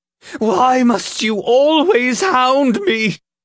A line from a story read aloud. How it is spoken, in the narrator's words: Ulfgar cried, his voice cracking